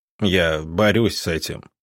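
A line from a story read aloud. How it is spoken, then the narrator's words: Weary. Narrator (Russian): как-то устало произнес он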